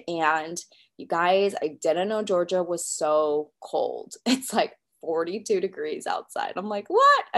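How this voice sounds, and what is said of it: Nasal, congested voice. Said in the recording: “I sound a little different, I am a little bit nasally. I'm a little bit stuffed up.”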